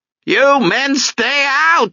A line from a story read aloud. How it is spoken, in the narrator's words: she'd shout